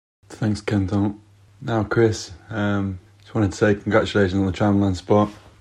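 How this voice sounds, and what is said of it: Faint southern English accent. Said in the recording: “a faint kind of South accent”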